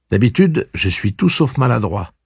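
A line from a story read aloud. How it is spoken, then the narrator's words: Plain. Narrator (French): dit-il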